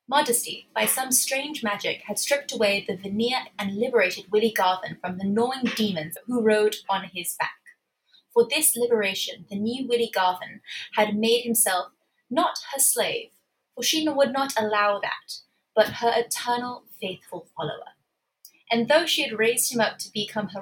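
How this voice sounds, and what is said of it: Put-on British accent. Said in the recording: “read it in a British accent”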